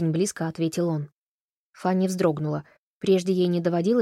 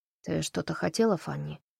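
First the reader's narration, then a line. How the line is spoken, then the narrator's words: Dull, flat voice. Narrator (Russian): тусклым голосом спросил Кевин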